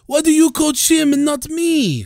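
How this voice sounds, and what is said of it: Bad French accent imitation. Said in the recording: “very hilarious French accent ... He almost sounded like a shitty Italian accent”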